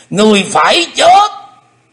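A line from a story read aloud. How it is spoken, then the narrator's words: Loud roar. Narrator (Vietnamese): Xích Phát Âm Ma gầm to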